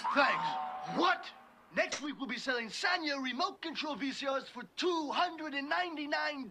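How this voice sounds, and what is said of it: Put-on accent. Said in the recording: “I hope you like that accent, because you're going to be getting a lot of it”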